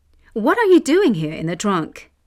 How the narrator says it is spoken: exclaimed one of the astonished thieves

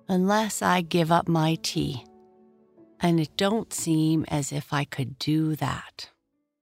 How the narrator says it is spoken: she said slowly, thinking of her one luxury

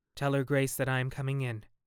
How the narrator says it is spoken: he said coldly

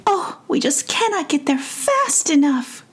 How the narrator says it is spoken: cried Sar and Neva together

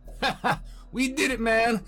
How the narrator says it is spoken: yelled Connor

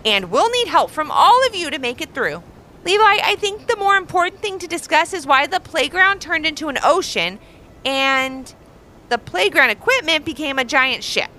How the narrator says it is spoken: called out Ross

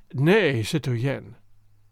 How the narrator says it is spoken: he said dryly and relentlessly, not heeding that despairing, childlike appeal

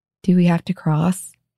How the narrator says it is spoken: he asked in a tiny, plaintive voice

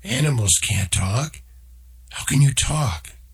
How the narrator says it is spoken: Noah tried to speak, stopped, and then finally in a shaking voice

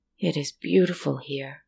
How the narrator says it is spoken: the man gasped

